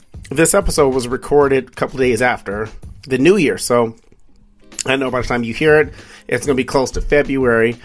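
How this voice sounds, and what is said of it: Slightly hoarse, recovering voice. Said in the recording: “I'm still slightly recovering from losing my voice.”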